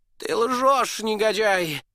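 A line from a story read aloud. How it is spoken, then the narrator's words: Shouting. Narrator (Russian): закричал герцог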